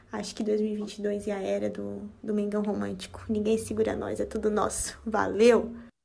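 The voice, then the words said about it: Strong retroflex R accent. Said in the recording (Portuguese): “esse lindo R retroflexo dela”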